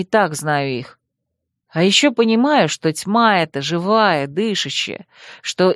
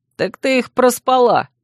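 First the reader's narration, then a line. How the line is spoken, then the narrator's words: Snorting. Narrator (Russian): хмыкнул Урвук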